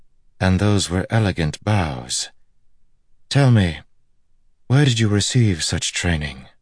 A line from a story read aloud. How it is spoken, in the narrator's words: Her voice was like music